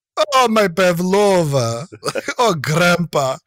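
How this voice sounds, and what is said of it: Imitated Russian-accented character voice. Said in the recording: “doing an impression of my memory of how Jarman did Kalenkov ... a Russian accent I could do”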